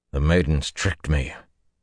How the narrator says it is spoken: he said grimly

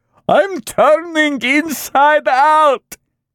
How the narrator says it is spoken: Kondrotin wailed

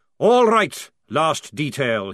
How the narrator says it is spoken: bellowed

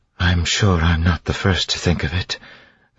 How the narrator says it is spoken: Vin said wearily

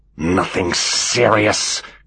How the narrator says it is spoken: spluttered the commander, barely able to get the words out in his rage

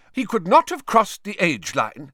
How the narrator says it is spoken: said Professor McGonagall sharply

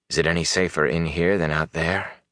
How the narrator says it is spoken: Rand said softly

